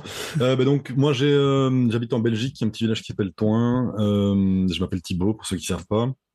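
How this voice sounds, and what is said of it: Belgian French accent. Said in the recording (French): “tu es en Belgique ... ça doit s'entendre l'accent.”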